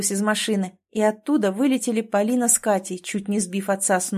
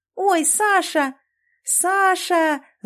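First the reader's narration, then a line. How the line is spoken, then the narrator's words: Wailing loudly. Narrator (Russian): завопила Катя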